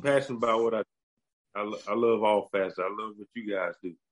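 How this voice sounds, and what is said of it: American country accent. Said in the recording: “my country accent ... It's a beautiful accent.”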